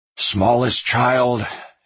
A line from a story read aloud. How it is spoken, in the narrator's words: his dad cried